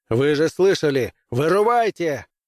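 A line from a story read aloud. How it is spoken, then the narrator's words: Barked. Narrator (Russian): гаркнул Крейвен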